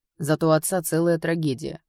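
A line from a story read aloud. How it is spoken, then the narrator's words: Snort. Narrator (Russian): хмыкнул Кайл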